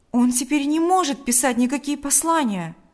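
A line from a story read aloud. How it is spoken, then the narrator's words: Exclaimed. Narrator (Russian): воскликнул Павел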